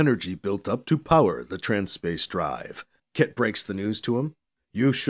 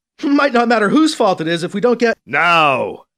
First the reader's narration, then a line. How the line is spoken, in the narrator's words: Kit shouts over the comm, interrupting him